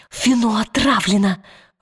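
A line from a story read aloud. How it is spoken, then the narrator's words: Forced through teeth. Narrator (Russian): выдавила она сквозь зубы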